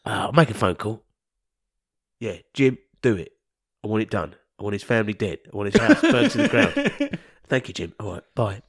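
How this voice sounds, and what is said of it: Gangster-style character voice. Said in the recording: “Why do I sound like a gangster?”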